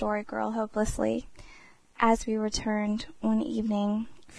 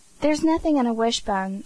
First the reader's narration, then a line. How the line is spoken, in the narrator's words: said Dan impatiently